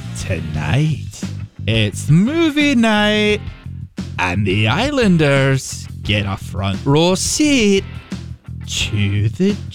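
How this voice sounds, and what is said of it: Imitates a TV show narrator. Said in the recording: “I do a pretty good Ian Sterling impression. He's the narrator on the show.”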